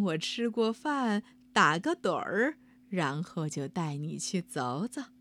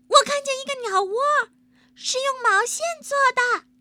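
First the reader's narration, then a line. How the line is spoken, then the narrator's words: Child's sudden cry. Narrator (Chinese): 一个孩子猛地叫起来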